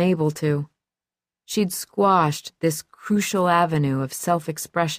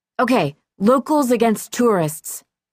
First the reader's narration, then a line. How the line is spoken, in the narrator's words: a kid yelled